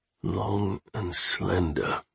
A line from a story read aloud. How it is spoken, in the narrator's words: I muttered